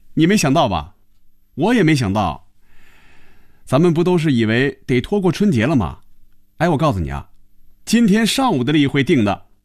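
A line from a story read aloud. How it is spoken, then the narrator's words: Laughing. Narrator (Chinese): 韩香笑了起来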